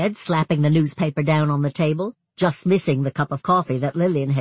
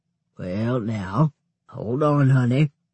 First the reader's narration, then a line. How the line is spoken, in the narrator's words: Sam said, his voice hoarse with whatever he'd come down with